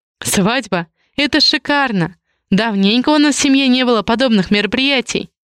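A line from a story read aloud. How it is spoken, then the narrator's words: Laughing. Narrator (Russian): Рассмеялась тетушка Веста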